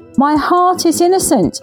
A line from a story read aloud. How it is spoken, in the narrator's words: he shouted as the verdict was announced